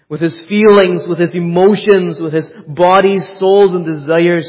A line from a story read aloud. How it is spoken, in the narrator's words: he cried out to God